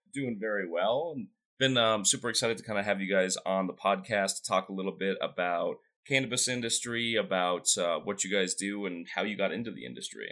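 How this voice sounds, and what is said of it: Slightly off, sick-sounding voice. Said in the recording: “I was a little bit sick at the time, so that's why my voice sounds a little bit off”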